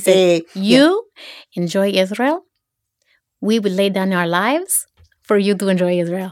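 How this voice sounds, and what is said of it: Put-on accent. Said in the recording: “I want you to do the accent because I can tell you can do accents.”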